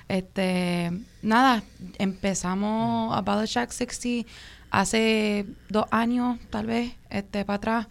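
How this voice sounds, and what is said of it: Diaspora Puerto Rican Spanish accent. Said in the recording (Spanish): “disculpa mi acento que yo soy de la diáspora, pero este boricua igual”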